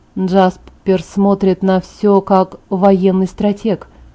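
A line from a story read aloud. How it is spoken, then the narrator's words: Quiet, defensive tone. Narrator (Russian): Эдвард тихо оправдывал брата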